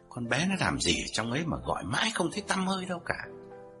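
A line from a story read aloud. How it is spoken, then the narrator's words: Old man muttering. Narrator (Vietnamese): Ông lẩm bẩm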